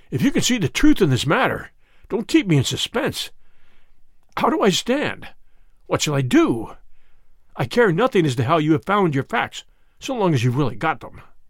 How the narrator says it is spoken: he said hoarsely

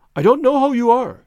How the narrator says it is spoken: he cried

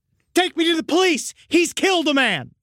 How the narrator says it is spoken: Caril ran towards him yelling

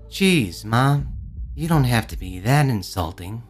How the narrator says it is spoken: her son muttered

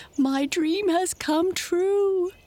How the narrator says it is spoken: sobbed as he ran

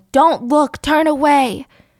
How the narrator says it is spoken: His uncle screaming at him

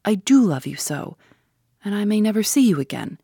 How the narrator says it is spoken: she cried

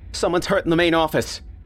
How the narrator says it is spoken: she screeched

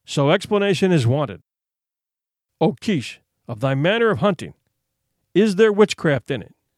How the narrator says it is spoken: said in a stern voice

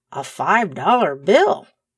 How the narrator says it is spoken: exclaimed Mr

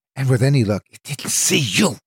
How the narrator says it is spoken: she hissed

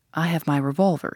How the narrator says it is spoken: said I

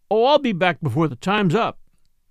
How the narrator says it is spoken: Jack laughed and said

